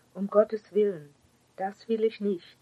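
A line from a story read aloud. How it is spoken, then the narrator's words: Calling out. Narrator (German): rief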